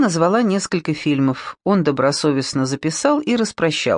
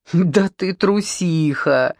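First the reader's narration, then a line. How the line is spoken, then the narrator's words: Laughing. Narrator (Russian): рассмеялся Колдунов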